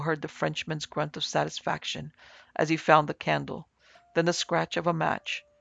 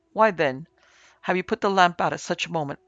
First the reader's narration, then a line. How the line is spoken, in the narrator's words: cried Terry